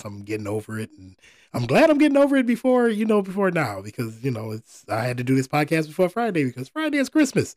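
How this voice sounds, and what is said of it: Hoarse, slightly strained voice. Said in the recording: “if I sound a little weird, I'm dealing with a case of laryngitis.”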